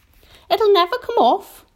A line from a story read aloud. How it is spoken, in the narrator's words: the earthworm said brightly